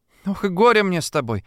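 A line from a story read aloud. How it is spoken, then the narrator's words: Sighing. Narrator (Russian): вздохнула Шурка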